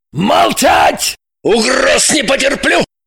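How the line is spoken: Sudden roar. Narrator (Russian): Шульгин вдруг взревел

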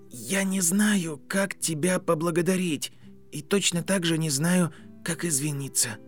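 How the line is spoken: Quiet. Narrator (Russian): тихо произнес Гарри

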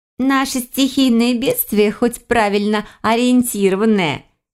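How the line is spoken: Giggle. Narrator (Russian): Хихикнула Мавка

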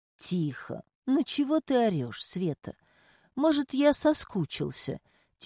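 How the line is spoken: Quiet coaxing jealous husband. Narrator (Russian): тихим голосом увещевал подружку ревнивый муж Сони

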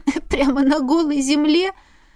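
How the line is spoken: Nervous laugh. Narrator (Russian): нервно рассмеялась я

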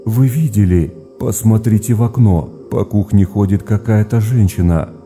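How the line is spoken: Frightened reply. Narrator (Russian): испуганно отвечала Мария

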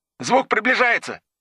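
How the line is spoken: Soldier shouting. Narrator (Russian): крикнул боец из ямы

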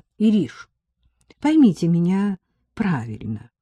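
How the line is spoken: Gentle. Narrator (Russian): мягко начала Элла

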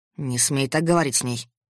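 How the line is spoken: Growling. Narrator (Russian): прорычал он

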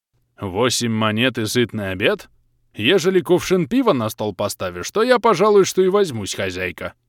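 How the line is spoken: Pompous pleased bass voice. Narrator (Russian): Важно пробасил местный, обрадованный резким уменьшением числа конкурентов

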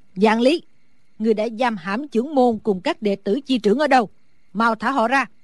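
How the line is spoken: Old woman shouting loudly. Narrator (Vietnamese): Sử bà bà lớn tiếng hét

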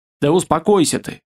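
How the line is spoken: Usual tone, slightly higher, cheeky. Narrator (Russian): продолжил он уже своим обычным, разве что чуть выше нормы, более нахальным тоном

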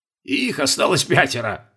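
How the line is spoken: Snorting. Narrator (Russian): хмыкнул Колобков

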